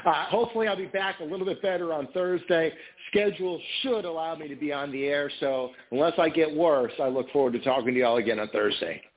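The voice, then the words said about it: Tired, worn-out, fading voice. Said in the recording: “If you can't tell by my voice, I'm kind of fading out here.”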